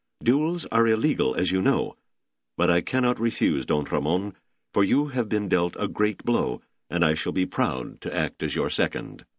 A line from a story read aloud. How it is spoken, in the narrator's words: young Lieutenant Marcelino, the officer said stiffly